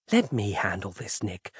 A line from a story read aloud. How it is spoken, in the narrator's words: she whispered placatingly